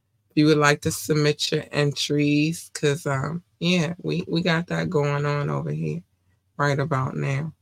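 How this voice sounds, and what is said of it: Hoarse voice. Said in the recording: “I don't know why I'm getting hoarse”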